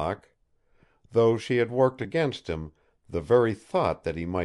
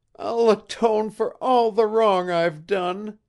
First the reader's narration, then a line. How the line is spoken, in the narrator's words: she sobbed